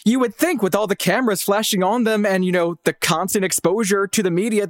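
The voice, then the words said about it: Very posh English accent. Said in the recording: “Your accent is very posh.”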